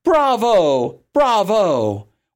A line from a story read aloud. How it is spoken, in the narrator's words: exclaim